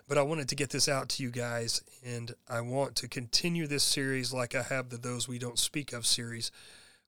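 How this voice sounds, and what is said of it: Hoarse, sick-sounding voice. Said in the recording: “I've been sick, as you can probably tell in this episode. I'm very hoarse. I've lost my voice”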